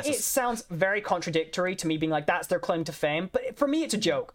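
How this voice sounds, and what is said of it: Hard-to-place Scottish accent. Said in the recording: “I'm the CEO of confusing people with my accent ... I don't understand your accent. Where are you from? ... would you believe me if I said I was Scottish? They're like, are you English, Irish, American? ... there is no way you're Scottish”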